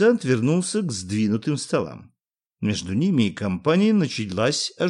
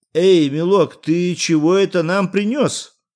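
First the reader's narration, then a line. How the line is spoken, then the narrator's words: Shout in shame and anger. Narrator (Russian): крикнул красный от стыда и гнева Иван Андреевич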